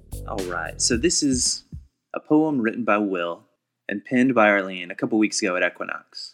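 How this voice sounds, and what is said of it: Usual voice. Nothing is said of it.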